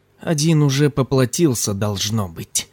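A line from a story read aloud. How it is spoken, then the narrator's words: Through gritted teeth. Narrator (Russian): сквозь зубы произнес Ким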